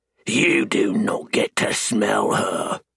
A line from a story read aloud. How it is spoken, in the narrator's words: I snarl